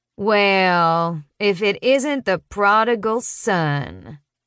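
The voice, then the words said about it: Woman drawling in heavy local accent. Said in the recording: “a woman behind me drawls in a heavy local accent.”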